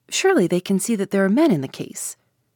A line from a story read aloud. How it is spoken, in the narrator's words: I exclaimed